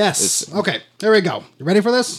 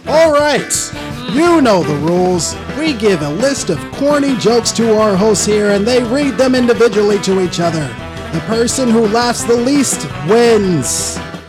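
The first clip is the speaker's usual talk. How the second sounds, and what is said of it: Announcer voice. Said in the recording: “I probably should use an announcer voice.”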